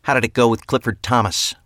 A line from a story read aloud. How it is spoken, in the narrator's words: Deirdre said sharply